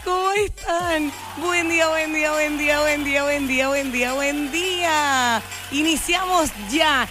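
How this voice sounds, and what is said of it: Radio announcer voice. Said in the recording (Spanish): “¡Amanecí con voz de locutora!”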